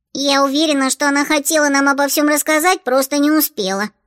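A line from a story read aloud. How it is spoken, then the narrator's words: Squeaky voice. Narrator (Russian): пропищала Чата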